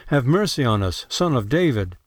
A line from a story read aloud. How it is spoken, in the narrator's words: two blind men cried out